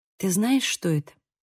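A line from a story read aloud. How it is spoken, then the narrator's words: Soft question. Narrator (Russian): мягко спросила я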